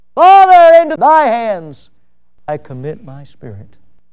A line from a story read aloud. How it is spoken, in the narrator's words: With a loud voice He cried